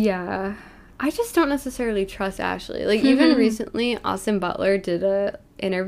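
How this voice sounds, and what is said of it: Usual voice. Nothing is said of it.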